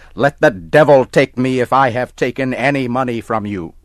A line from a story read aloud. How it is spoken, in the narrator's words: Tom got angry and started to shout